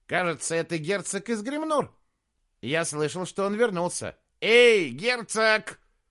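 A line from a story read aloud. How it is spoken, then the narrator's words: Jester shouting. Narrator (Russian): крикнул шут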